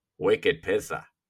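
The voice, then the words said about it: Put-on Boston accent. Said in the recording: “the Boston accent”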